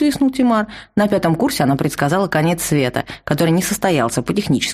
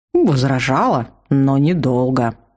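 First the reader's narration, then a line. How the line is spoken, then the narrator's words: Ominous mutter. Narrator (Russian): зловеще буркнул Тимар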